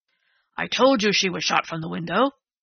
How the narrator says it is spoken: Strawn reminded Dundee triumphantly

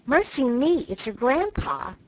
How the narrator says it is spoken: Joe exclaiming with alarm

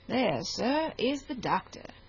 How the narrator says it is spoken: said the attendant of Henry, very coolly

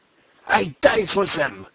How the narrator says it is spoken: cried the Pole in thick excitement

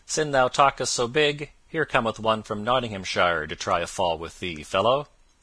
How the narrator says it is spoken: a loud voice was heard to cry out

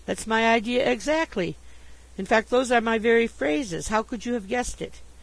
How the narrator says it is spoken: I exclaimed

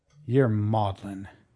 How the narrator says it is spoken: Wolverstone growled

